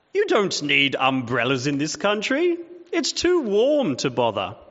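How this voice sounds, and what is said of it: Put-on British accent. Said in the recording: “I'm putting on a bit of a British accent”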